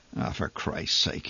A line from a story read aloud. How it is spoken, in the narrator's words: he muttered amid the thrumming uproar